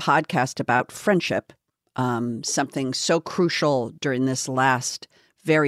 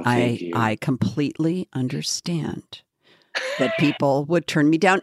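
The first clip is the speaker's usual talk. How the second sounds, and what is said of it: Radio announcer voice. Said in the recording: “I'm going to do my radio voice”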